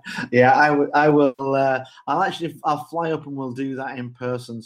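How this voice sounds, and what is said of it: Fancy foreign accent. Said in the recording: “fancy accent”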